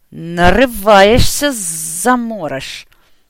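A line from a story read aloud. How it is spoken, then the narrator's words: Hiss. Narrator (Russian): прошипел Платон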